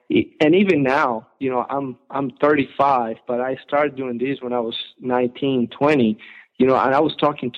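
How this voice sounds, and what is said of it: Noticeable foreign accent in English. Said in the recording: “my English, my accent, you know, you can tell right away, hey, he's not from around here”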